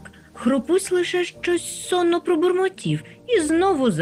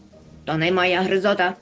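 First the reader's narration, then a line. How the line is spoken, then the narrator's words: Grumbled. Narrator (Ukrainian): буркнув хропусь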